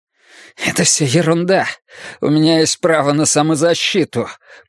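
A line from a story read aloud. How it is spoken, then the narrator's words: Hiss. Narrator (Russian): прошипел Оскар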